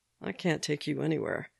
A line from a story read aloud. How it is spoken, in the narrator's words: Sam murmured in his ear, suppressed laughter in his voice too